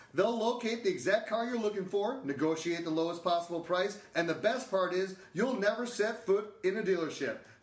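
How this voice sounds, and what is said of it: Smooth radio announcer voice. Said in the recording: “that was real good radio voice”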